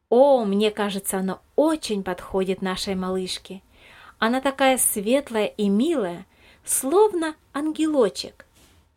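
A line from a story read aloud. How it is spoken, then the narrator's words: Joyful agreement. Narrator (Russian): радостно согласилась Елизавета Михайловна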